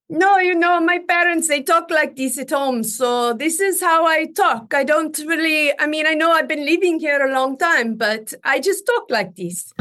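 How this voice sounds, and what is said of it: Faked put-on accent. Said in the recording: “I went in there only speaking the accent, saying this was my real accent ... So you faked it.”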